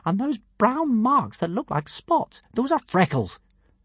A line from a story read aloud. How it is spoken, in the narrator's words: said Hiccup indignantly